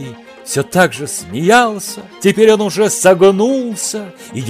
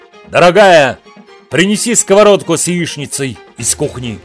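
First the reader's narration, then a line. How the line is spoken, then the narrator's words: Growling. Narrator (Russian): прорычал он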